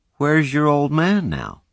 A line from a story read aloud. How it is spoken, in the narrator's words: he asked in a conversational tone